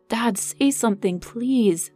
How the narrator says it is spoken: she pleaded

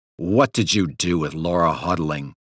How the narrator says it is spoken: a detective growled

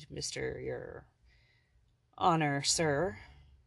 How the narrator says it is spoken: Uncertain how to address the imposing man, Hire mumbled

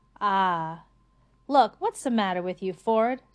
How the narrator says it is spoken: said Arthur

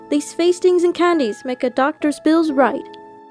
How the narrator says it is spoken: exclaim as he drove out of sight

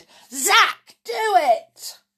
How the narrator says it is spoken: shouted

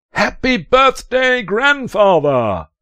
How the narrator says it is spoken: the shriek

